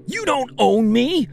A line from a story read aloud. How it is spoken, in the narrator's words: I screamed